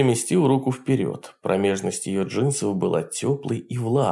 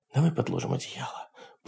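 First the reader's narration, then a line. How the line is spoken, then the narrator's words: Whispering. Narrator (Russian): прошептала она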